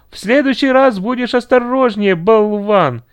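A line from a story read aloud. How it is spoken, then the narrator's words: Angry shout. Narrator (Russian): кричала она со злостью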